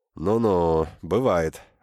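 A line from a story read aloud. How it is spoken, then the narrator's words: Sighing. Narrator (Russian): вздохнул Ворчун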